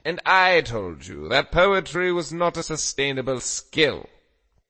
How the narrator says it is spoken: Pat growled

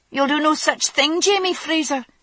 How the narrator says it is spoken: his sister said sharply

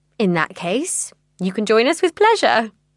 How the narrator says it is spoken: she laughs

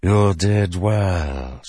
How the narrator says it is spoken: she said, speaking Alethi, her voice thickly accented

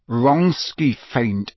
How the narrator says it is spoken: said Harry through gritted teeth

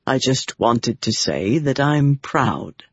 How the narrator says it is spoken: Bryn told her softly

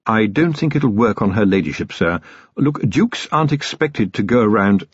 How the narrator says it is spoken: His voice faltered in the face of Vimes's smile

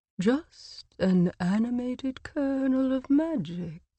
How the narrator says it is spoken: a slithering voice drawled from the lake

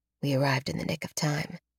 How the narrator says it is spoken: Alex whispers

